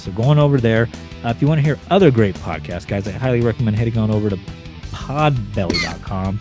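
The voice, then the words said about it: Worn-out, fading voice. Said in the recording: “for a fourth week in a row, my voice is dissipating fastly”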